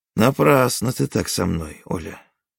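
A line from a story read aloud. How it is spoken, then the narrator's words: Calm. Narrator (Russian): спокойно сказал Онегин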